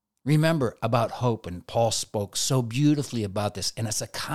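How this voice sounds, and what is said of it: Usual voice. Nothing is said of it.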